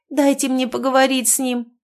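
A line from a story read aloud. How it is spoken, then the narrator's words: Pleading. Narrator (Russian): взмолилась незнакомка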